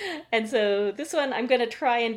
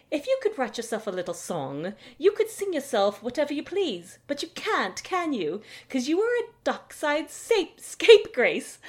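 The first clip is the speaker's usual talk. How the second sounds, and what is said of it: Performs a fictional character's voice. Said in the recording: “do my best Yaskir voice,”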